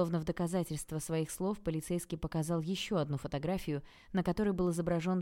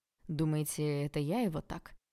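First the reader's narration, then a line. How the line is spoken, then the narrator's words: Calm question. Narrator (Russian): спросил Олег все таким же спокойным тоном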